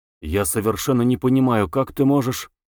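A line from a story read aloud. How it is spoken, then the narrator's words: Quiet. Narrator (Russian): Самгин негромко сказал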